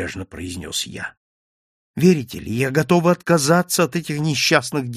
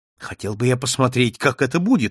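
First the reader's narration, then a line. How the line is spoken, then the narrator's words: Exclamation. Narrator (Russian): воскликнул я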